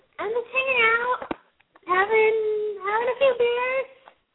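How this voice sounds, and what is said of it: Bad falsetto character voice. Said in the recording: “voice changer ... that's a bad falsetto.”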